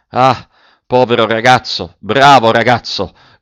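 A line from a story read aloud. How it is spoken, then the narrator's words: Shouted. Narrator (Italian): gridò l'ufficiale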